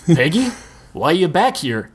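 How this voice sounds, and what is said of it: Deep male character voice. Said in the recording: “Ed's deep voice.”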